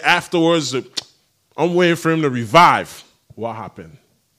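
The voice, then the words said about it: Island accent. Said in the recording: “Excuse my island accent.”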